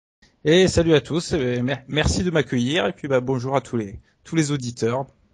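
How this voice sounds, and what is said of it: Southwestern French accent. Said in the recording (French): “avec un très bel accent du sud-ouest, bien sûr ... c'est un excellent accent”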